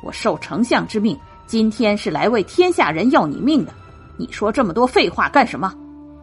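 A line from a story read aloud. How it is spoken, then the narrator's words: Angry. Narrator (Chinese): 颜悦发怒道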